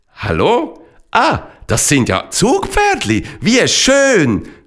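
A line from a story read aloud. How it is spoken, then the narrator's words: Called out. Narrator (German): rief der Matander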